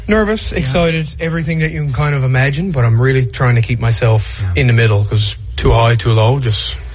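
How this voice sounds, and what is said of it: East Coast Canadian accent. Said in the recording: “I love the accent. ... That's an East Coast one right there. ... It reminds me of going to Newfoundland”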